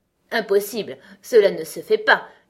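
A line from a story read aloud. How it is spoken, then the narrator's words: Peremptory queen. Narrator (French): dit la reine d'un ton péremptoire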